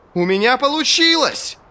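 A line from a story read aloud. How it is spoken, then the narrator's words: Yelling triumphantly. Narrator (Russian): завопил Джезаль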